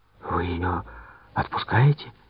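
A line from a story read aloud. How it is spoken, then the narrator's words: Quiet question. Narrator (Russian): тихо спросил я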